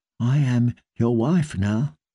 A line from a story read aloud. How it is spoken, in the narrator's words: she whispered